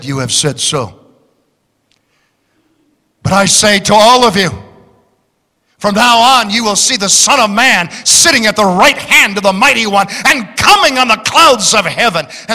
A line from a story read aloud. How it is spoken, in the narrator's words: Calmly, serenely, said